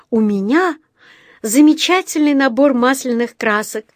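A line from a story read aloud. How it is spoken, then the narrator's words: Joyful gasp. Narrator (Russian): радостно ахнула Джуди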